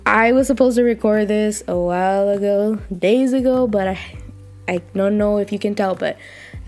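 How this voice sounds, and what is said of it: Weak, partly lost voice. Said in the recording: “lost my voice, got a little bit under the weather, couldn't really speak right ... I don't have fully my voice back, but somewhat”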